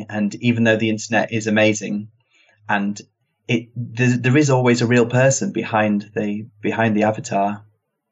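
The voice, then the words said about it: British accent. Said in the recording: “I've got the British accent”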